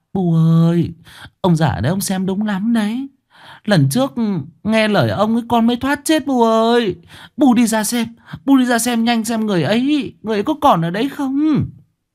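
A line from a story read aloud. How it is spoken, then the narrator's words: Old woman, tearful, whimpering. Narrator (Vietnamese): Bà Hoán mếu máo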